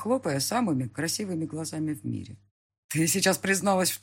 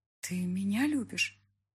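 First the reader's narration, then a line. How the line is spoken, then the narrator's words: Barely audible, unsure voice. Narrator (Russian): Едва слышно спрашивает неуверенным голоском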